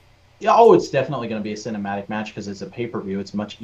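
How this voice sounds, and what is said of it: Usual voice. Nothing is said of it.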